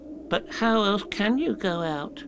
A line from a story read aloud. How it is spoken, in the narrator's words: asked Piglet anxiously